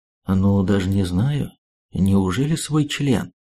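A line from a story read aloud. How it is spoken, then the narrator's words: Calm reply. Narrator (Russian): Шпион не менее спокойно ответил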